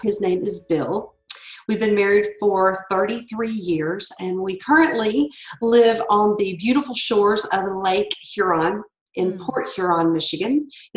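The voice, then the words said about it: Slight Southern US accent. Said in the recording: “I'm a Southern girl... deep, deep Louisiana roots. So if you hear a little bit of an accent, that's where it's from, because I am not a Midwesterner”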